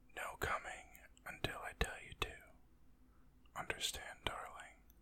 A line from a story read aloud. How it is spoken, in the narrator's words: whispered in her ear